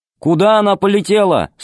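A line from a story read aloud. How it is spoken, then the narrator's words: Loud over engine noise. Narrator (Russian): спросил он громко, перекрывая жужжание двигателя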